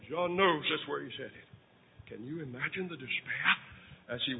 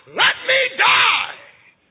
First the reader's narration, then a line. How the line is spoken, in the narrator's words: Men screaming to God